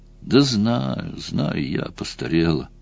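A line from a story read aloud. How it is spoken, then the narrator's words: Unhappy voice. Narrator (Russian): сказала Марион несчастным голосом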